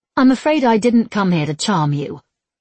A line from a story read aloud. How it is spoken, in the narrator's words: she snapped